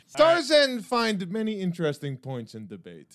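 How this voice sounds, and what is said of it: Tarzan character voice, thick British accent. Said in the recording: “thick British accent ... I don't like a thick British accent”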